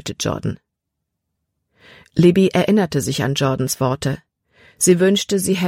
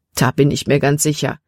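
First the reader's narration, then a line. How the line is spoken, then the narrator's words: Plain. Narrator (German): antwortete er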